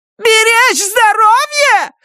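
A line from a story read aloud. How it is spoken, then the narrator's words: Shrieking. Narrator (Russian): завизжала она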